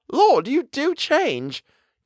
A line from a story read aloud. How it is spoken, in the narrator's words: cried